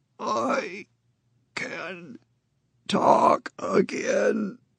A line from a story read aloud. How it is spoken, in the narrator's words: in that grating, gravelly voice, he said